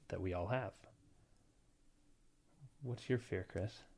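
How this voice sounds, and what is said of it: Serious monotone narrator voice. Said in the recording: “so serious ... this even keel tone that they talk the whole time ... Monotone voice ... so serious and intense. I'm channeling my podcast voice ... The narrating voice”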